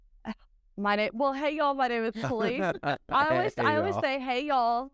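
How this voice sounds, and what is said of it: Texan drawl. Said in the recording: “a different accent than what I anticipated from somebody living in England ... it's a Texas ... Texan accent ... Drawl ... The Texas twang”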